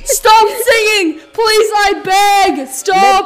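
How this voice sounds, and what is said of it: Yelling loudly. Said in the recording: “I'm yelling”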